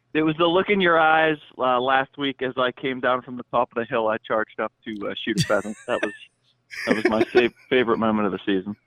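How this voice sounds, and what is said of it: Puts on an accent. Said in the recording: “Would you quit with the accent?”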